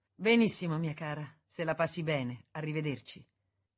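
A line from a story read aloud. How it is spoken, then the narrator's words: Curt, dry. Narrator (Italian): seccamente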